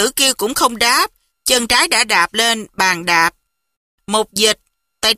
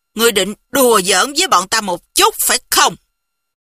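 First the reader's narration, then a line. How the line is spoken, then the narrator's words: Angry. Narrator (Vietnamese): Mục Dịch tức giận nói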